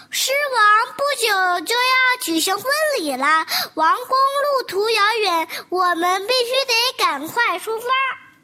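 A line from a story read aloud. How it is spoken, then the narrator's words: Loud. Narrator (Chinese): 一只鸽子 大声地说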